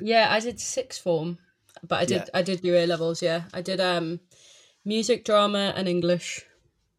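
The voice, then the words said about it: Northeast English Geordie accent. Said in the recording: “Where's the accent? ... South Shields, but it's right next to Newcastle.”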